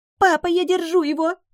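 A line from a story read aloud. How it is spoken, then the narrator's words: Shrieked. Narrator (Russian): взвизгнула Жаннет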